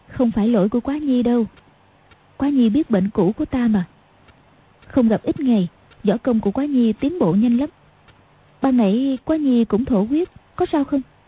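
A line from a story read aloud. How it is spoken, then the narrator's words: Smiling. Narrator (Vietnamese): Tiểu Long Nữ mỉm cười nói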